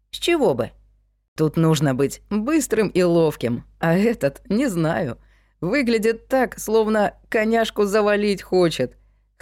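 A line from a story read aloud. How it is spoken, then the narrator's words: Laughing remark. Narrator (Russian): хохотнул третий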